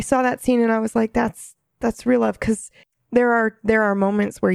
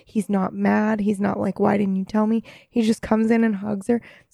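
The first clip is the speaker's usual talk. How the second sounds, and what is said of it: Emotional, choked-up voice. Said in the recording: “Sorry, I'm getting emotional.”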